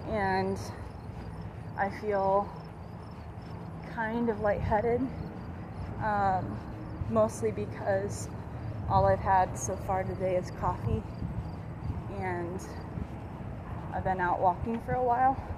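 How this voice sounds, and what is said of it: Out of breath, tired. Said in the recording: “I know I'm starting to get out of breath. I'm starting to get a little tired.”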